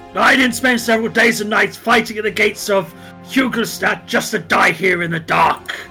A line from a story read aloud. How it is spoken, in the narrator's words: he starts shouting